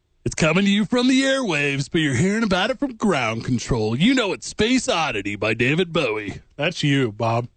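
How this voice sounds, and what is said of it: Radio DJ voice. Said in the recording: “DJ voice is the best”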